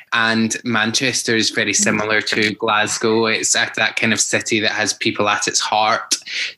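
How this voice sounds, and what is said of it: Glaswegian Scottish accent. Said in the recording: “Clearly from my accent, I'm Glaswegian”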